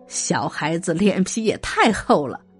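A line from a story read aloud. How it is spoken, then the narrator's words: Laughing scold. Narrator (Chinese): 景帝也笑骂说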